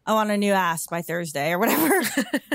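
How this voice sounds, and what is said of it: Imitation in a Californian accent. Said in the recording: “It's like Cali accent or something.”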